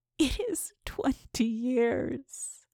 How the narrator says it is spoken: moaned the voice

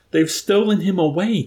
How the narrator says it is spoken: Dunbar shouted back

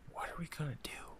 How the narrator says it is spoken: whispered

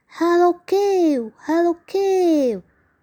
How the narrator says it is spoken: He called out loudly

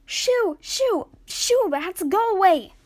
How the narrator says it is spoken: Ash screamed

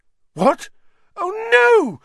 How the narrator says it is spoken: Hermione squeaked

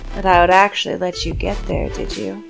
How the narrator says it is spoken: the voice like water over rock said gently

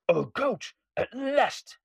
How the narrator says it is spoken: he cried

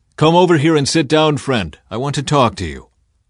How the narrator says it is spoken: So Boaz called out to him

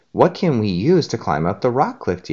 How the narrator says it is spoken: Diego asked

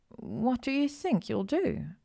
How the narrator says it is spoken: Hermione asked hesitantly

